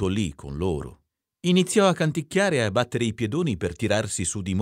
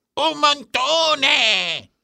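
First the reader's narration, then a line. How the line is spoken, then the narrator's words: Shouted. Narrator (Italian): gridò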